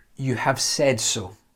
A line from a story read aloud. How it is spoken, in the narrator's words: He calmly and very gently says